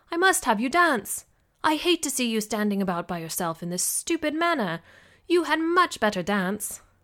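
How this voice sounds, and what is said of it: Decent put-on British accent. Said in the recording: “pulling off a not-too-shabby British accent”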